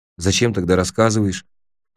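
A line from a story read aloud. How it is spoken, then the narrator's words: Low-voiced question. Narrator (Russian): вполголоса спросил я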